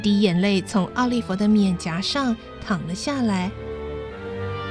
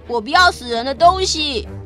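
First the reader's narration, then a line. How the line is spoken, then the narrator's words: Shouting. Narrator (Chinese): 奥利弗叫道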